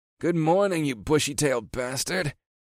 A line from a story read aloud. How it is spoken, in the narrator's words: he grumbled